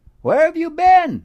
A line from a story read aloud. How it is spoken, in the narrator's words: they all cried